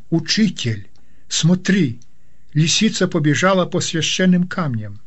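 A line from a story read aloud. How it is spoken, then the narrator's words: Student's exclamation. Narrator (Russian): один ученик воскликнул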